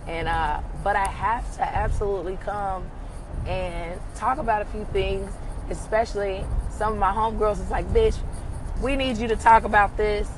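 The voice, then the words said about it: Strained, sick-sounding voice. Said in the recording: “as you can hear, your girl's voice is just going through it ... my voice is holding on for dear life. It is living on a prayer.”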